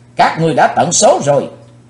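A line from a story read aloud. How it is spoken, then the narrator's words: Thunderous shout. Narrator (Vietnamese): chàng thiếu hiệp theo tiếng quát cuồn cuộn bốn bề như lôi điện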